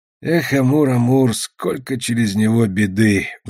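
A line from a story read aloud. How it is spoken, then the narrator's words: Sighing. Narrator (Russian): вздохнул Тешка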